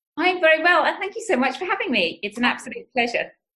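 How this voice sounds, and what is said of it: British accent. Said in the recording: “It's so nice to hear your voice and your accent because I was just in the UK for the first time and I miss all my London friends”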